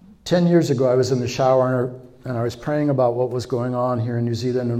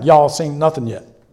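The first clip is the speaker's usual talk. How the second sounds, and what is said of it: Put-on Texas twang. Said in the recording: “You talk like that? Seriously, it was almost like, you know, Texas twang.”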